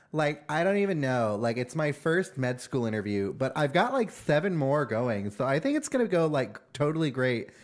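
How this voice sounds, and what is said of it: Put-on Valley Girl accent. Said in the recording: “the Valley Girl accent ... that voice ... where do people learn to talk like that?”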